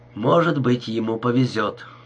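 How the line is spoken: Grumbled. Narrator (Russian): проворчал Слэк

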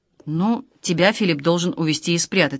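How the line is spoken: Plain. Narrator (Russian): сказал Иван

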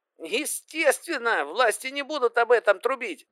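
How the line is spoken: Yelled. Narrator (Russian): заорал тот

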